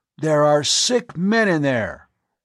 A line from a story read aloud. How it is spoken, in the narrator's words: Hovan's voice boomed out